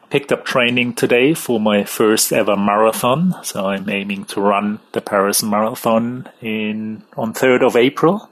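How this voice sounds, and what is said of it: German accent. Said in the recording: “as you figure by the accent, I'm actually from Germany”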